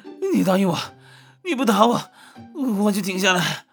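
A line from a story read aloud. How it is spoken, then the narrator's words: Breathless, panting. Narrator (Chinese): 他气喘吁吁的说道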